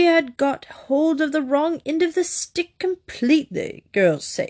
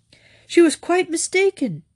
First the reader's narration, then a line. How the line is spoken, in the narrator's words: said Lord Emsworth warmly